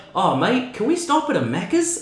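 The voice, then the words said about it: Put-on New Zealand accent, nearly convincing. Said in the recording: “Your Kiwi accent is almost there, man... The ting is a bit over the”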